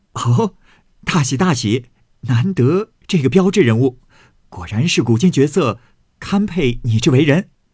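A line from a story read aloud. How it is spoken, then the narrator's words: Laughing. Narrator (Chinese): 宝玉笑道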